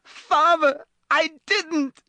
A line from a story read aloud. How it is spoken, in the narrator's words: shrieked the boy in chains below